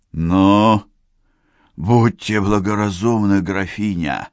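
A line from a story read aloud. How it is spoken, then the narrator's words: Menacing hiss. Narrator (Russian): прошипел убийца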